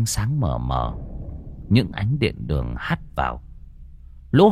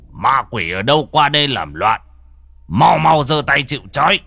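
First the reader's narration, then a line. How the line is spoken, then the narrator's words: Old master shouting. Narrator (Vietnamese): lão thầy đứng chống lạnh trước bàn lễ mà quát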